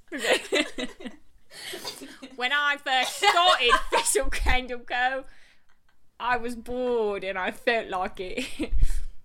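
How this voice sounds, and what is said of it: Put-on British accent. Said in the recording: “Can I do the whole interview in a British accent?”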